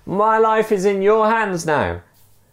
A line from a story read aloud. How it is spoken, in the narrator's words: shouted the other man